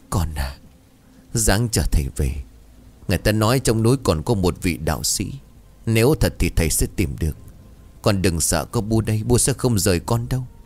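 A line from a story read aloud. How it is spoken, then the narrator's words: Trembling whispered prayer. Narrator (Vietnamese): run rẩy thì thầm khấn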